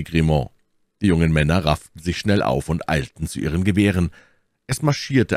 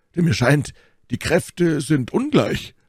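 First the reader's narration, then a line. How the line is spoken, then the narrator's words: Calling out. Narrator (German): rief Porthos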